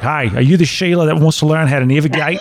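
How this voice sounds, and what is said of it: Good put-on Australian accent. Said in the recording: “very good Australian accent”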